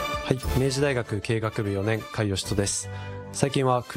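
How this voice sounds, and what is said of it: Usual voice. Nothing is said of it.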